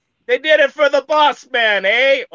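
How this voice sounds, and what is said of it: Put-on Jamaican accent. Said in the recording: “there's a white guy doing a Jamaican accent”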